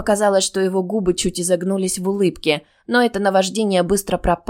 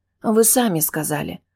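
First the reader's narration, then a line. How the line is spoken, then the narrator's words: Unsure mumble. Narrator (Russian): пробормотала менее уверенно, чем нужно было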